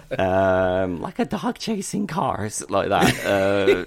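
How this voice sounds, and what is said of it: Impression of Heath Ledger's Joker. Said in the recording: “It's a good impression”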